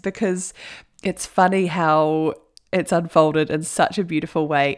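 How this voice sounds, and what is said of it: Smiling, laughing voice. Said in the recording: “with a smile on my face and laughing. I hope you can hear that in my voice”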